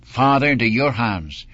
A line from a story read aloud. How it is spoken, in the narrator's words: he cried out with a loud voice